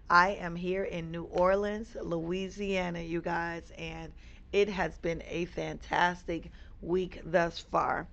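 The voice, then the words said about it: Hoarse voice. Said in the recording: “my voice sounds a little hoarse”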